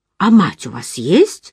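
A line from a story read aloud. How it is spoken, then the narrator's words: Indignant question. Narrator (Russian): возмущенно спросил он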